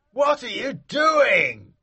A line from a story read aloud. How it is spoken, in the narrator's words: shouted the man